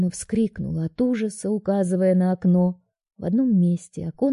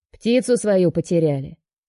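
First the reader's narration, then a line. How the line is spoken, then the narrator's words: Deep bass voice. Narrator (Russian): наконец пробасил он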